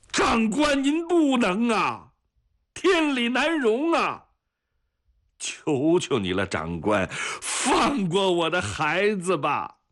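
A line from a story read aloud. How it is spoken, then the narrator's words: Heartbroken wailing. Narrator (Chinese): 撕心裂肺的哭喊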